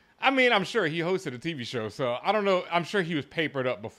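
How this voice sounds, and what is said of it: Usual voice. Nothing is said of it.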